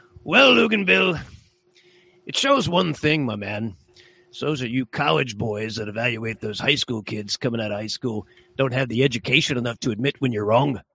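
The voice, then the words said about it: Impression of Quint. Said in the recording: “in my best Quint voice.”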